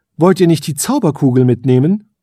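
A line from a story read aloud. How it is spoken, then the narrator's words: Called out. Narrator (German): rief die Elfenkönigin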